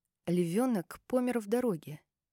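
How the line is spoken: Quiet. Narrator (Russian): сказала я тихо

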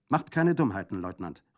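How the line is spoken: Called out. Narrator (German): rief Brandolaccio

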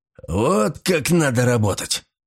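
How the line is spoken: Growl. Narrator (Russian): прорычал Батис

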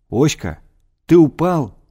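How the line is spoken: Frightened shout. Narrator (Russian): крикнул я испуганно

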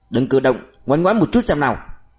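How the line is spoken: Sharp shout. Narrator (Vietnamese): Cậu quát lên

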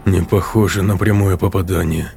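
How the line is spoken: Mumble. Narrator (Russian): пробормотал Воронцов

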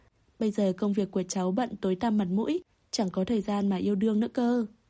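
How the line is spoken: Loud laughing. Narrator (Vietnamese): Bằng Sảnh cười lớn

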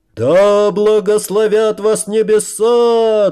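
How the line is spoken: Roared in unison. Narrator (Russian): дружно взревели гости

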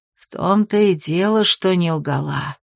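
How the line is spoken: Heavy sigh, witch. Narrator (Russian): тяжело вздохнула ведьма

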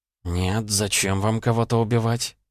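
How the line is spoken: Muttered. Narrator (Russian): пробормотала

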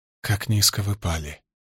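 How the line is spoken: Whisper. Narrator (Russian): прошептала

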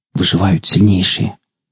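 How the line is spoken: Quiet whisper. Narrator (Russian): тихо прошептала

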